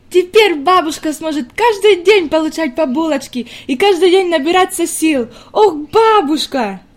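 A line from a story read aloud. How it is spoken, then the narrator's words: Jubilant exclamation, girl. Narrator (Russian): неожиданно воскликнула девочка с еще большим ликованием в голосе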